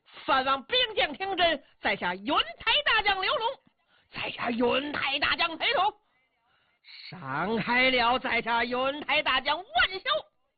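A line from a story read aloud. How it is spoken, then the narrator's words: Several voices shouting loudly. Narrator (Chinese): 几个人高声喊嚷，道出名姓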